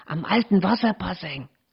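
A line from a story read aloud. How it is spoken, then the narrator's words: Hiss. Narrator (German): zischte Thea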